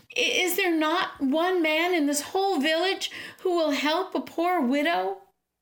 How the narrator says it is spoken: looked up pleadingly and called out

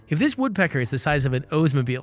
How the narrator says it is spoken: said his wife

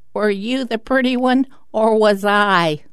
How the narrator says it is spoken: ancient sister, octogenarian, cackles

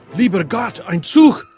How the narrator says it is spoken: Suddenly, shouted

